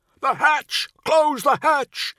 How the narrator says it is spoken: Zabo yells

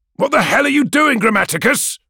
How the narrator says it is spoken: Ol yells

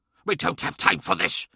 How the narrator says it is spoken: hissed Ahriman

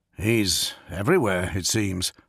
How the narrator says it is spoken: Thales murmured

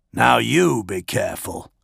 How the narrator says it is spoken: Dolor growled

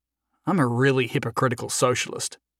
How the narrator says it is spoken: muttered to himself

